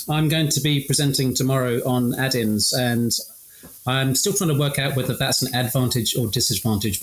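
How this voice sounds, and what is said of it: British accent. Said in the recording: “my very British accent.”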